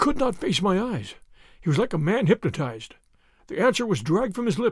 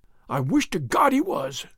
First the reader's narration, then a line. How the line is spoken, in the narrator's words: he cried